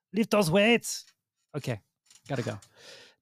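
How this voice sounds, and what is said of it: Imitates another person's voice. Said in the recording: “This is my Arnold voice ... my impression”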